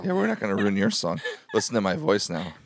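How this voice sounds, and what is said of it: Raspy, nearly lost voice. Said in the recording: “my voice is fucked ... My voice is almost completely gone ... Just all raspy too.”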